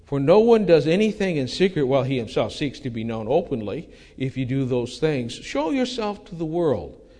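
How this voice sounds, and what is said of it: Sarcastic reading voice. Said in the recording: “my voice is a little sarcasm there”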